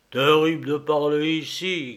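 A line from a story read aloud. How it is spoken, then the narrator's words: Bear's grumble. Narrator (French): grommela l'ours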